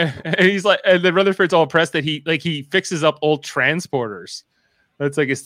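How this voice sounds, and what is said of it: Usual voice. Nothing is said of it.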